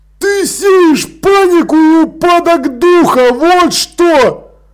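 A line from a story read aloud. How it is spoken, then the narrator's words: Yelling. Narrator (Russian): заорал он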